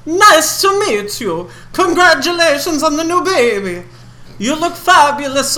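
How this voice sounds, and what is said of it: Half Italian, half Count Chocula accent. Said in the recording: “Half Italian, half Count Chocula. ... I get one more try at this accent before I drop it.”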